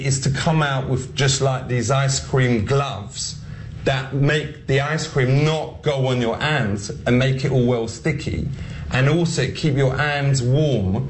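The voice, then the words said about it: Ali G character accent. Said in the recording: “here's Ali G, here's Sacha Baron Cohen trying to just do this accent”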